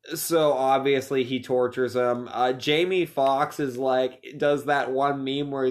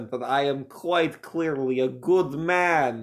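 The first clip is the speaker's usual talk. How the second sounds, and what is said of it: Bad put-on German accent. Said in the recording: “that was a bad German accent ... You can tell from my great German accent”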